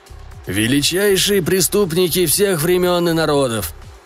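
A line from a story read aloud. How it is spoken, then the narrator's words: Creaky, vacantly thoughtful. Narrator (Russian): с идиотской задумчивостью проскрипел голос мстиша Борошева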